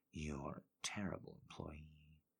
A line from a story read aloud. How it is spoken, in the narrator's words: Gold whispers, and his voice is as ragged as hers